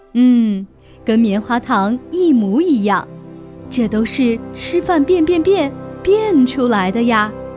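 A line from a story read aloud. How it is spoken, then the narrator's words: Satisfied, mysterious smile. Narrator (Chinese): 猫妈妈满意地露出一个神秘的微笑说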